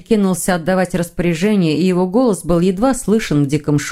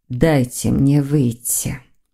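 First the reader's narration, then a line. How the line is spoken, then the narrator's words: Muffled witch's voice. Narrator (Russian): глухо произнесла ведьма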